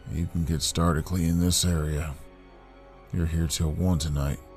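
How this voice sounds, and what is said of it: Raspy voice. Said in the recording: “in a raspy voice.”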